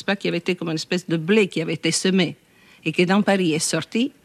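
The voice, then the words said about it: Strong, sing-song Italian-accented French voice. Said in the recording (French): “c'est une voix assez étonnante, très forte. ... Très chantante aussi ... Avec cet accent italien ... Mais très déterminée”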